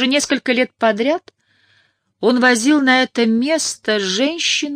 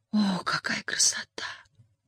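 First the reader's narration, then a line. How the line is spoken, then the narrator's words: Young woman's whisper. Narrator (Russian): прошептала девушка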